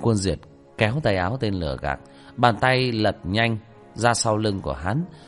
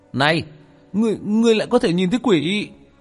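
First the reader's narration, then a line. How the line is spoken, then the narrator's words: Exclaiming. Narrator (Vietnamese): Tên lừa đảo kêu lên một tiếng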